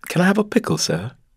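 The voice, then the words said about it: Put-on British accent. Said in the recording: “But no British accent.”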